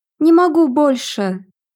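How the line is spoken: Moaning. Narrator (Russian): простонала Мирабель

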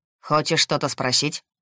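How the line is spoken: Rather sharp question. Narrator (Russian): Довольно резко поинтересовался

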